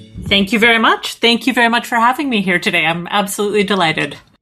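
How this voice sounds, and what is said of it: Canadian accent. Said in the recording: “as you can probably hear, my accent is Canadian”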